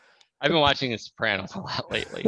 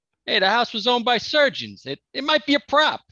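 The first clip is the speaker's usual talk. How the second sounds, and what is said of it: Put-on New York accent. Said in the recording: “I'm reading all of this in a New York accent”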